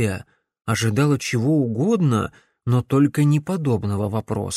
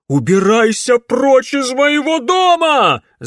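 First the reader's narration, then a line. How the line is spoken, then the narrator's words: Aunt screaming furiously. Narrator (Russian): завопила тетка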